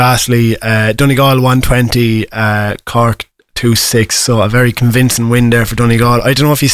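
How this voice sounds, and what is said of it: Usual voice. Nothing is said of it.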